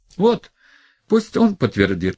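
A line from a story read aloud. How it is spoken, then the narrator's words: Exclaimed. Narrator (Russian): воскликнул он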